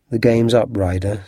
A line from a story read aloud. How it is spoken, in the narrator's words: said Holmes